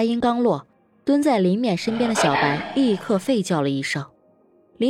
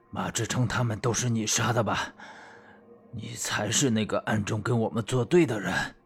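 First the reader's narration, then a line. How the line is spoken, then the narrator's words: Low deep voice. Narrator (Chinese): 孙祥武声音低沉地说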